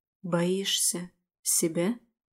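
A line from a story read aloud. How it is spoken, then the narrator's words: Barely audible. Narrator (Russian): Выговаривает еле слышно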